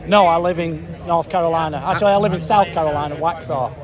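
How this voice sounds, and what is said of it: Salford English accent. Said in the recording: “You've still got a Salford accent?”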